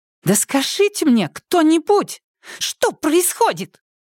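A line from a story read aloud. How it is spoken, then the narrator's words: Shrill squeal. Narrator (Russian): взвизгнула Яна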